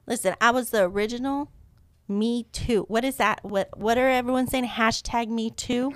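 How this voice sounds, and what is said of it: Speaks with a noticeable accent. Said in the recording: “With that accent”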